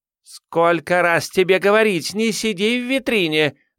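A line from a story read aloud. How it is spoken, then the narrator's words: Shouting. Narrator (Russian): закричала Джун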